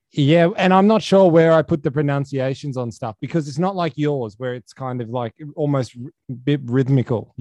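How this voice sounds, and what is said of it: Mild Australian accent. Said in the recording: “I don't think I have a very, like, Australian accent ... It's Aussie enough.”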